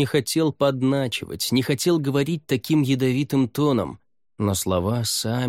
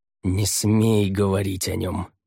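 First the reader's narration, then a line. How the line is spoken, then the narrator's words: Hissed. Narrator (Russian): прошипел брат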